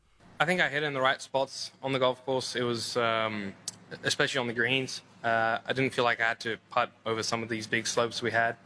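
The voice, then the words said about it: South African accent. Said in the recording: “That's a South African accent if ever there was one.”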